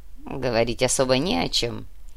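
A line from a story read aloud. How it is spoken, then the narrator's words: Dwarf laughing lightly. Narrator (Russian): легко рассмеялся карлик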